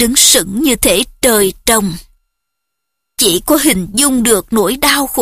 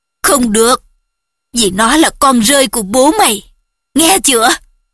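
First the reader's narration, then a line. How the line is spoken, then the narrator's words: Roaring angrily. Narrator (Vietnamese): U tôi gầm lên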